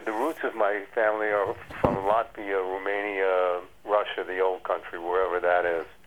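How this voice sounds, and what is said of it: Slight New York accent. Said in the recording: “you sound like you have a little bit of an Eastern accent from New York”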